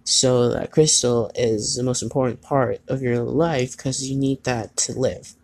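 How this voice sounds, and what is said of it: Irish accent. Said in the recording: “you hear my Irish accent again, don't you?”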